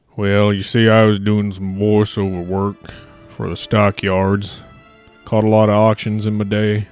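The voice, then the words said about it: Western American drawl. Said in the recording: “it's real hard playing a southern gent when you already got a western accent.”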